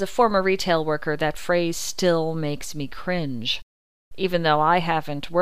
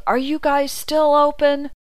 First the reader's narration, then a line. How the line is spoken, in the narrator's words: the same woman yelled